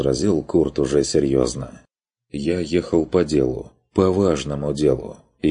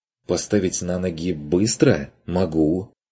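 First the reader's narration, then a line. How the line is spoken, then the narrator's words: Irritated. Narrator (Russian): Нессель раздраженно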